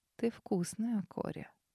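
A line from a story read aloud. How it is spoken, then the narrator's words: Whisper. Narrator (Russian): шепнул Морок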